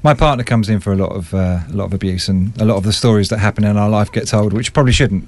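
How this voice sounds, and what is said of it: Posh English accent. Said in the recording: “you've got quite a posh accent”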